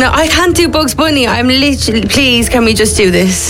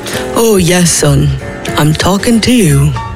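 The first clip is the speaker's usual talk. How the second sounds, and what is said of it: Slightly deep put-on Irish accent. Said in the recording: “Slightly deep Irish accent.”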